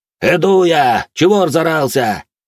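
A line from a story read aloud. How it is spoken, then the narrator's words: Loud shout. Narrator (Russian): Громко прокричал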